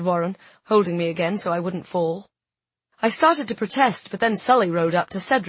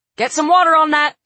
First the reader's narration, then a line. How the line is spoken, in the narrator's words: shouted Elias